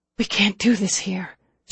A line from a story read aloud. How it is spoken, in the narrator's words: whispered